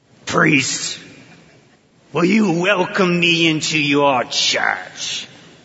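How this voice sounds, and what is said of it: Demon character voice. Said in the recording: “I'm going to do my best demon voice here.”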